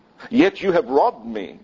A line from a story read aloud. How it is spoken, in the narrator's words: God says